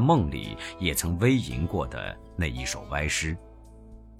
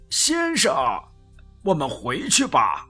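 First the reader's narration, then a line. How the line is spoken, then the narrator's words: Loud. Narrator (Chinese): 船家……高声的对我说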